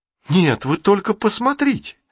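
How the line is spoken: Girl's exclamation, changed tone. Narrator (Russian): снова воскликнула девочка, но уже с другой интонацией

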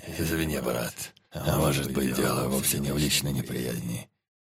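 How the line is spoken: Hoarse wheeze. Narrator (Russian): Прохрипел Черный

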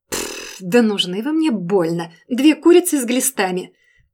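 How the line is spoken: Nervous rapid chatter. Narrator (Russian): Нервно затараторила та, пытаясь надменно рассмеяться

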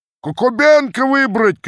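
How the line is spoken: Crowd shouting. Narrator (Russian): кричала часть

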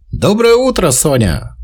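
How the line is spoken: Cheerful. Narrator (Russian): сказал он бодро

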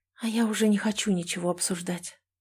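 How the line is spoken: Weak, fading whisper. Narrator (Russian): шепотом произношу я, теряя силы

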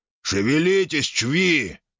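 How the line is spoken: Growl. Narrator (Russian): рыкнул он

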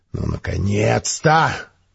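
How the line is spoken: Displeased, menacing bark. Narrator (Russian): недовольно подумал и грозно рявкнул

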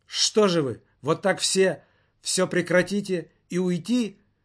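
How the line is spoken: Exclaiming. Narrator (Russian): воскликнул он

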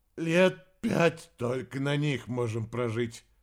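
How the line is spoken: Hoarse former deputy director. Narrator (Russian): хрипло пояснил бывший замдиректора

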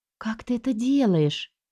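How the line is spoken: Enchanted whisper. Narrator (Russian): зачарованно прошептала я

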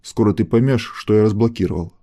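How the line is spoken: Calm father's warning. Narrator (Russian): спокойно предупредил отец

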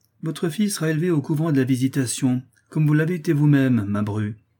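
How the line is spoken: Curt reply. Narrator (French): repartit le duc d'un ton sec

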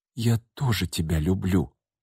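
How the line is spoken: Whisper. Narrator (Russian): прошептала Настя ему вслед

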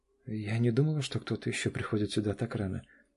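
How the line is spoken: Confused mumble, young woman. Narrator (Russian): пробормотала девушка растерянно

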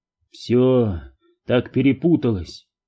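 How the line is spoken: Sighing. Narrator (Russian): вздохнул

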